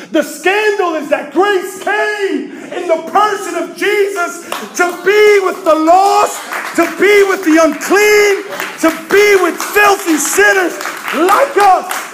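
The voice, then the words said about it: Yelling, loud preaching voice. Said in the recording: “sorry I'm yelling”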